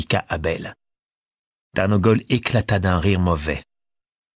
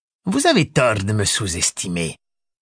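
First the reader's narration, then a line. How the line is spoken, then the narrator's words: Menacing. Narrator (French): répondit Tarnogol d'un ton menaçant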